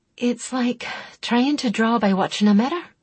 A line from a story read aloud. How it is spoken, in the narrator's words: she said through clenched teeth